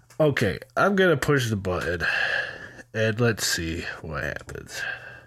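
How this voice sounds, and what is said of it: Stuffy, nasal-sounding voice. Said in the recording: “my voice sounds a little bit different, almost like I have a stuffy nose ... my nose is plugged up ... I sound so strange right now”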